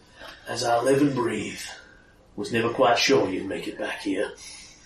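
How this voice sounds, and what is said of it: Gruff cowboy voice, slightly southern. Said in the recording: “Hope his accent doesn't escape me. ... It's going a bit southern, isn't it? ... It is going a bit southern. He's more your vigilante voice ... It was John Wayne.”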